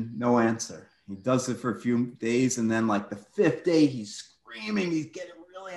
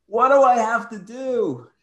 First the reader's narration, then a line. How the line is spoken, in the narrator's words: he hears a booming voice